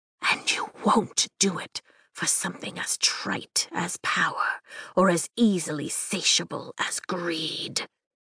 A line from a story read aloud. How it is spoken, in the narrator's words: he promises in a whisper